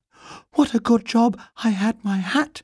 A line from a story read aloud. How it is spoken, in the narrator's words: he panted